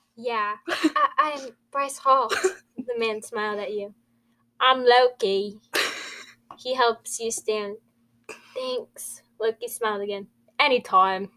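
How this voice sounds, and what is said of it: Put-on British Cockney accent. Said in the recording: “Your British accent's getting way better. ... It's a bit Australian. ... Cockney?”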